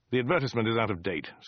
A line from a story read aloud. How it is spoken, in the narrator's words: snapped Dirk